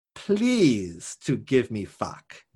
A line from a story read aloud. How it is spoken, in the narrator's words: she said